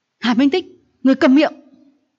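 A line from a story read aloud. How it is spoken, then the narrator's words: Crying out mid-fight. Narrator (Vietnamese): Đang trong lúc đánh nhau, Hạ Minh Nguyệt phát tâm kêu lên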